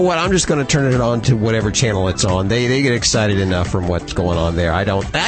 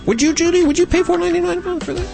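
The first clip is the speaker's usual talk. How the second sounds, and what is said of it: Voice goes high-pitched. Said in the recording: “my voice got all high”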